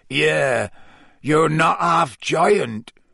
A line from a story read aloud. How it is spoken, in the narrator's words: said Hagrid croakily